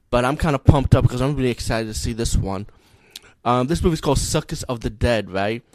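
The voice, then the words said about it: Low voice from a cold. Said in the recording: “my voice's been kind of low lately. You know, I have a cold”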